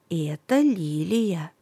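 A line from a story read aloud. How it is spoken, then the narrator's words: Soft, smiling grandmother. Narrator (Russian): Бабушка улыбнулась и тихо сказала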